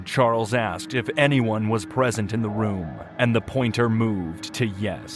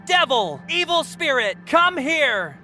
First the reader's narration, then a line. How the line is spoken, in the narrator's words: Charles called out